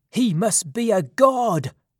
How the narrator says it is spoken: the men cried in surprise

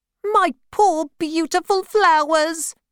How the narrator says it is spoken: cried

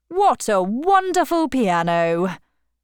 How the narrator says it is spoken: said loudly

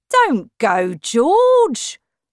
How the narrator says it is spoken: cried his father

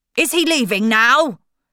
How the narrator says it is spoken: Uncle Matthew said impatiently

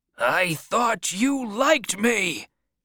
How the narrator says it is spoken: the man shouted, angrily

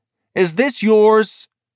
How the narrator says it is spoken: Holiday said loudly

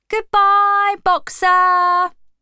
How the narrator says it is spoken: shouted

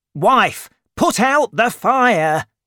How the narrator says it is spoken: shouted Jondrette

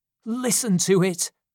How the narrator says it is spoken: cried Monks, covering his face with his hands

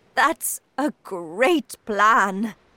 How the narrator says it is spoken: cried

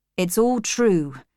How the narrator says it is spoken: he said

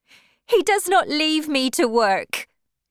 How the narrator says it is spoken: she cried

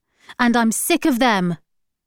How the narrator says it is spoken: shouted

